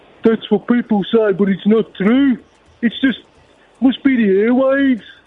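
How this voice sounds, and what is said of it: Birmingham-sounding accent, imitates another person. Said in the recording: “You sound like you're from Birmingham.”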